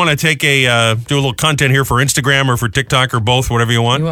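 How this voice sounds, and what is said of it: Usual voice. Nothing is said of it.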